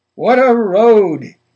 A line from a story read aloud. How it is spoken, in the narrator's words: he said, and laughed again